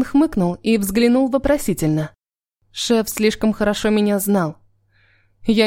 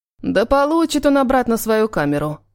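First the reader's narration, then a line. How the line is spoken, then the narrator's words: Grumbling. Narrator (Russian): проворчал Юдин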